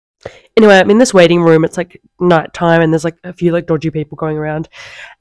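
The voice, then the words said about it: Out of breath, unwell voice. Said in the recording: “I'm so out of breath. I'm so unwell.”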